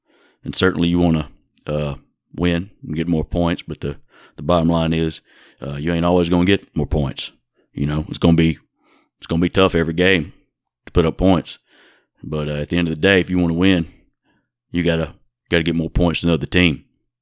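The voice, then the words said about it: Impression of coach Jay Hobson. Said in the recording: “that Jay Hobson impression ... saying the reality is, and the bottom line is, and you know ... you know what I'm saying?”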